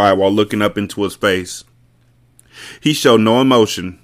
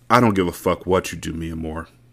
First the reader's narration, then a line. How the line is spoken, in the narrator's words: he said, the tone of his voice revealing his disappointment